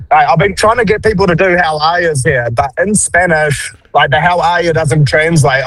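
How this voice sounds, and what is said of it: Thick New Zealand accent. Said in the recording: “you're the first people we've met from New Zealand ... no one can understand our accent and I have a real thick accent”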